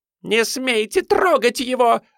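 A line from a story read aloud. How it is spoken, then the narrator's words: Woman shrieking. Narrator (Russian): завизжала женщина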